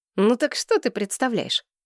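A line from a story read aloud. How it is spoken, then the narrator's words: Drawn-out snort. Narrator (Russian): Несина протяжно хмыкнул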